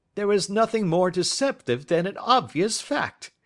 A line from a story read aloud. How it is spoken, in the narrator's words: he answered, laughing